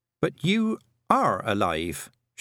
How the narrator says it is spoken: she said

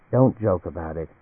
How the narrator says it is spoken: Anne said quietly

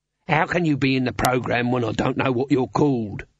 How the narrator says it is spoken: said Dibbler irritably

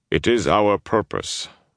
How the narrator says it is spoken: Dermon replied calmly

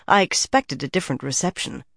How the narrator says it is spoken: she muttered

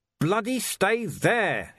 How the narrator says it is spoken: he yelled

